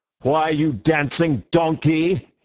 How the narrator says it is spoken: he roared

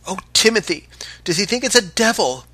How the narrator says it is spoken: cried the boatswain's mate in a voice that even the Canadian must have heard

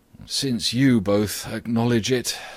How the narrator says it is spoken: sighed Socrates

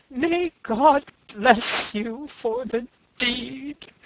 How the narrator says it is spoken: he cried

